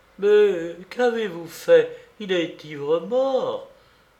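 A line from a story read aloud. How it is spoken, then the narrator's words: Exclaimed. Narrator (French): s'écria Marianna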